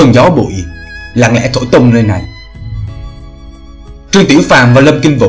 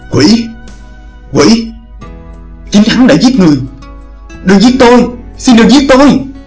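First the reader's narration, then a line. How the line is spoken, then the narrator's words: Terrified ceaseless crying. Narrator (Vietnamese): tỏ vẻ sợ hãi vô cùng, miệng không ngớt kêu lên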